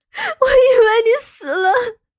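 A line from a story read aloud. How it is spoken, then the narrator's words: Crying. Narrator (Chinese): 莫渊熙哭着道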